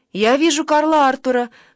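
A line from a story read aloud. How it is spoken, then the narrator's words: Exclamation. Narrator (Russian): воскликнула она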